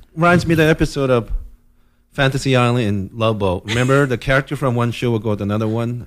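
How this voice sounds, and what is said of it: Asian-accented English. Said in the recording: “I sound like real Asian... I can't get rid of this accent”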